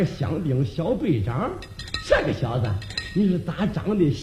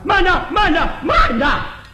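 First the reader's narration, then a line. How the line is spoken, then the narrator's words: Loud shout. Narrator (Chinese): 有人高声喊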